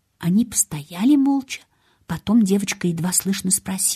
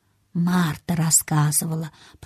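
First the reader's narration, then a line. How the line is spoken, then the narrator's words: Boy whispering in ear. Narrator (Russian): прошептал ей на ухо мальчик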